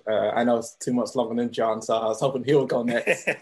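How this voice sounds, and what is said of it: English accent from London. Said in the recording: “your accent was different from that guy up top named Antoine ... I'm originally from England. I grew up in London.”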